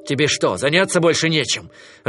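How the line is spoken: Irritated remark. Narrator (Russian): раздраженно заметил Кинай

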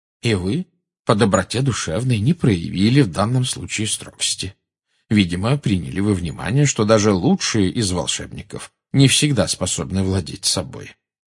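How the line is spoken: Calm. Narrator (Russian): спокойно проговорил Дамблдор

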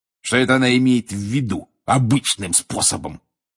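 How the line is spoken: Snort. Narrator (Russian): фыркнул он

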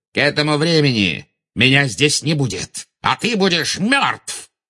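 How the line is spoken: Barked. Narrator (Russian): рявкнул Волан-де-Морт

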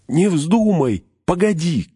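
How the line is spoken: Shouting. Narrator (Russian): крикнул Фродо

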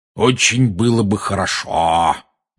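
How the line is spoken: Spiteful tone. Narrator (Russian): произнес дядя зловредным тоном

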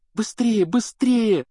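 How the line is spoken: Pleading. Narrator (Russian): взмолилась Гермиона

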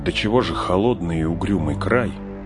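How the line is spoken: Shivering mutter. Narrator (Russian): зябко поежившись, пробормотал Фродо

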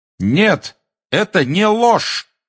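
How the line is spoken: Shout. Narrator (Russian): крикнул Гарри

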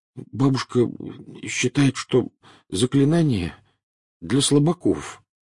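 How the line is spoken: Mumbling. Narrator (Russian): промямлил Невилл

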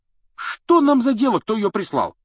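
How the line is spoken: Carefree exclamation. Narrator (Russian): воскликнул беспечный Рон

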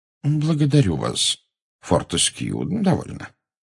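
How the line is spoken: Gentle rebuke. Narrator (Russian): мягко осадил его Дамблдор

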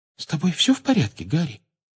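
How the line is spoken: Quiet question. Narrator (Russian): тихо спросила Джинни

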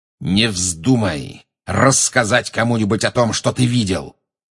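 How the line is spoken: Growled. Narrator (Russian): прорычал Снег

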